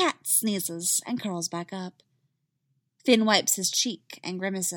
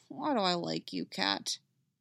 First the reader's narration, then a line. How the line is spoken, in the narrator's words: he mutters